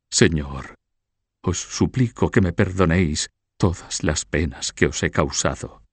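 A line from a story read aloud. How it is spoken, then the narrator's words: Broken voice. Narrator (Spanish): con voz entrecortada dijo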